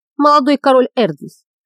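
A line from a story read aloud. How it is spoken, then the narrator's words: Gloomy exhale. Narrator (Russian): мрачно выдохнул Лиган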